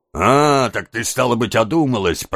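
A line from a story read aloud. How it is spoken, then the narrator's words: Grumbling. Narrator (Russian): проворчал Сайкс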